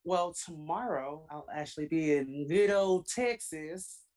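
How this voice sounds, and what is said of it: Bad put-on Texan accent. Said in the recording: “that's the worst accent.”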